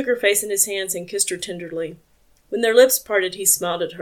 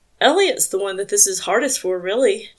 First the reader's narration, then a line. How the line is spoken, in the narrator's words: continued, his voice rough with emotion